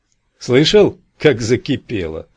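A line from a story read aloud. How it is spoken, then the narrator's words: Laughing. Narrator (Russian): засмеялся я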